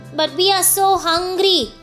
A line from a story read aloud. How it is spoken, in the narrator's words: wailed